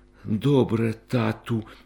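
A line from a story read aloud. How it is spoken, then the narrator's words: Agreeing whisper. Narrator (Ukrainian): прошепотіла, погоджуючись, Ганка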